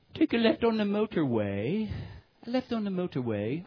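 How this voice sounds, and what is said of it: Imitated British GPS accent. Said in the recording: “she has this wonderful British accent ... You love to just listen to the British accent ... I love it when they speak like that.”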